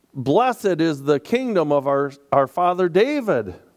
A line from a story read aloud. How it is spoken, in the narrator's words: others were shouting